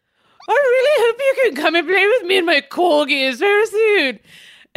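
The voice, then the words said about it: Impression of Queen Elizabeth. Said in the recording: “did your impression of Queen Elizabeth”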